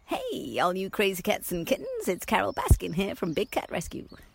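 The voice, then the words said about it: Spot-on Carol Baskin impression. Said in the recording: “Carol Baskin ... is spot on ... I think that's a great impression.”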